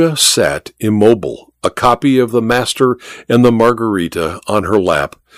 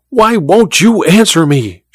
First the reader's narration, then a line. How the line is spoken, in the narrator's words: she cried to Olga